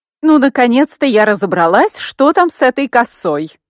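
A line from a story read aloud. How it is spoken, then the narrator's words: Exclaimed. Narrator (Russian): воскликнула Луиза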